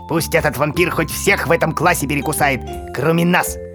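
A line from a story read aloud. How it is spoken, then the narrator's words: Growl through teeth. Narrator (Russian): прорычал сквозь зубы Рвакля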